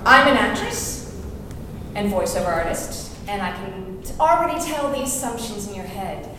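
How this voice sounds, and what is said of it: French-American accent. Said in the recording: “as you can tell from my accent, I am not from these shores. I'm French-American.”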